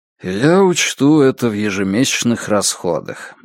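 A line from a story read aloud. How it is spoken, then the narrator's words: Sighed. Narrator (Russian): вздохнул Страйк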